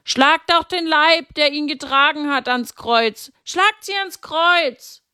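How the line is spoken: Several voices shouting. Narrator (German): manche schrien

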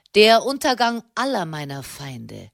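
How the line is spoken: Cheerful reply. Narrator (German): versetzte Sernani fröhlich

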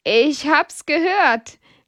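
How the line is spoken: Laughing. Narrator (German): lacht Hedwig

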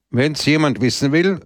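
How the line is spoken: Loud. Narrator (German): sagte laut

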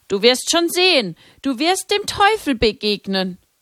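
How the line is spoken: Voice calling from behind. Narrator (German): Hinter ihr rief eine Stimme

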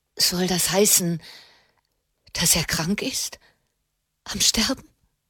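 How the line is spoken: Trembling voice. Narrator (German): fragte Alessia mit zitternder Stimme

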